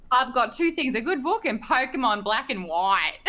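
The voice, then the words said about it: Australian accent. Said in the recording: “that overtly Australian accent sounds much different than your current overtly Australian accent ... My accent has definitely simmered down”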